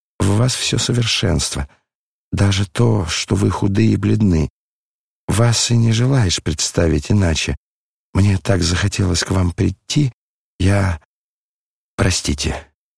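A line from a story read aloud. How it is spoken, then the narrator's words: Hurried, agitated whisper. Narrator (Russian): князь с необыкновенным волнением, спеша, прошептал ей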